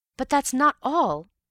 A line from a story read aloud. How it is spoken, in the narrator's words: cried